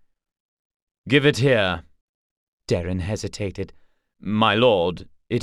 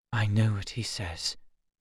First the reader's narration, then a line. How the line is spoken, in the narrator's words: he whispered